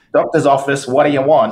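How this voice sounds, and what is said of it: Put-on Northeast US accent. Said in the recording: “I love your Northeast accent too, by the way, when you did that. That was awesome.”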